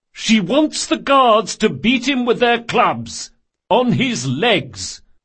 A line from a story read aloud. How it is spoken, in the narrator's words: shouted